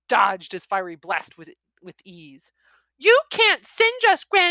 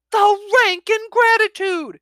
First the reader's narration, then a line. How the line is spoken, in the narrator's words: His temper flared, with his roar